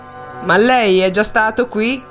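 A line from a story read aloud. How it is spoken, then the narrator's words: Plain. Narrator (Italian): chiese Angustina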